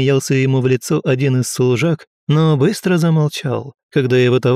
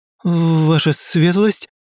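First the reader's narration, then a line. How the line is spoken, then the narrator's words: Uncertain mutter. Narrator (Russian): неуверенно пробормотал он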